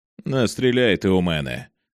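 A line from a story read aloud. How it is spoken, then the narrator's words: Calm killer. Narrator (Ukrainian): спокійно сказав вбивця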